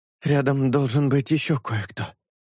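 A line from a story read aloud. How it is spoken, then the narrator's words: Breathy exhale. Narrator (Russian): выдохнул шелк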